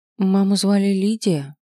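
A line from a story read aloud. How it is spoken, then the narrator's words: Hesitant. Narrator (Russian): неуверенно произнесла я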